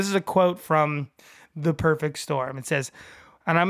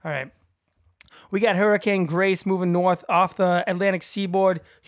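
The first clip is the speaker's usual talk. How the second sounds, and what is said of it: Attempted Massachusetts accent. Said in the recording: “I'm going to do my best Massachusetts accent. It's going to be awful”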